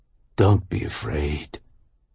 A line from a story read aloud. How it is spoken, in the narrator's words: the stranger said, and his voice was deep and raspy, like the voices of movie monsters